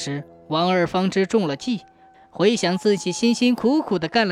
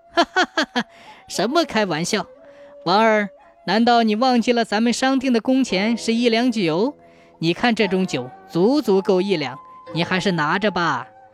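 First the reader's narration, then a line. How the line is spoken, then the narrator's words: Hearty laughter. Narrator (Chinese): 钱串子哈哈大笑说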